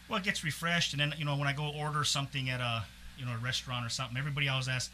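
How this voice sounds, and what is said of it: Foreign accent, often taken for Irish. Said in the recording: “I think I've kind of slowly lost my accent, but, you know, I go back, visit my folks, come back, it's even stronger ... what country are you from? ... everybody says Ireland for some reason”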